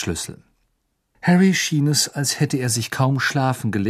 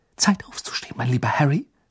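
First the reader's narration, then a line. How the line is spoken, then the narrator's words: Whisper. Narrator (German): flüsterte sie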